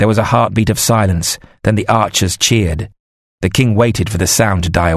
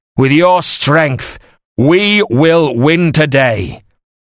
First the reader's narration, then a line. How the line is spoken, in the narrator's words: the king shouted loud now